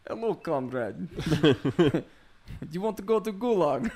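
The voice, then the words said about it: Put-on Russian accent. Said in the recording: “a Russian accent”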